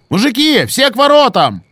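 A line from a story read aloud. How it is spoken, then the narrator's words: Yelled. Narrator (Russian): заорал Антон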